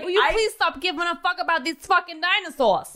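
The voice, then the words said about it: Very strong put-on accent. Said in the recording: “I like that accent... Very strong.”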